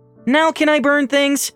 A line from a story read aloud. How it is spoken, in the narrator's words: Angela asked eagerly